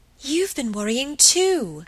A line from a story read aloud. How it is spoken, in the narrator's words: exclaimed Margaret, getting more and more excited